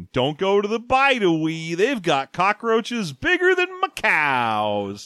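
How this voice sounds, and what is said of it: Put-on Southern accent. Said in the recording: “I don't know why I'm giving her a southern accent.”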